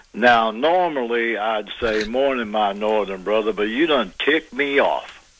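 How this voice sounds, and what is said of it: Southern US good-old-boy accent. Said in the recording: “that good old boy, get her done accent ... my southern accent ... purebred southern ... you can turn it on like a faucet”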